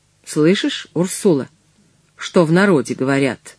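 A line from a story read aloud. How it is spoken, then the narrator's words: Calm. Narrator (Russian): Спокойно сказал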